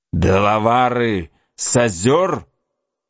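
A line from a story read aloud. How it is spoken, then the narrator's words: Exclamation. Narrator (Russian): Лицо Магуа было мрачнее тучи, когда он воскликнул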